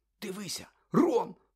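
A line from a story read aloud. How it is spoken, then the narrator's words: Sudden exclamation. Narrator (Ukrainian): вигукнув раптом Гаррі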